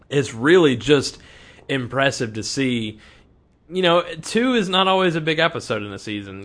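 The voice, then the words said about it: Strained, failing voice. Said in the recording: “I'm losing my voice right now.”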